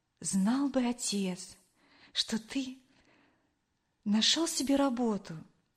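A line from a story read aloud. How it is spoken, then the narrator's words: Quiet speech. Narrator (Russian): тихо произнесла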